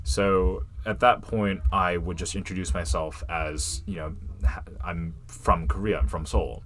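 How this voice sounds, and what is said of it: Fully American accent. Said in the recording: “your accent is not, ... you know, someone from Asia, it's fully American.”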